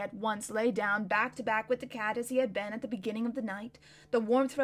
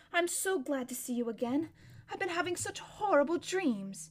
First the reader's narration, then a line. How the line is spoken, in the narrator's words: he gasped Shasta